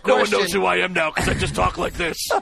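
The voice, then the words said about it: Deep gravelly Batman voice. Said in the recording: “Now, this is Batman's voice. ... doing a deep voice.”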